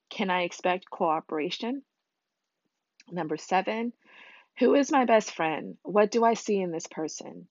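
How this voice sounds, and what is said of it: Husky, slightly scratchy voice. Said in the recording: “I sound really husky because my voice is kind of like a little scratchy.”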